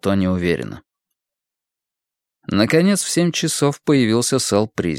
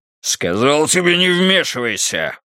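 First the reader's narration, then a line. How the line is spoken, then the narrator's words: Growl. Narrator (Russian): прорычал Призи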